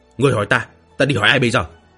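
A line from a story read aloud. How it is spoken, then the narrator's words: Angry. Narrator (Vietnamese): Lăng Trùng tức giận nói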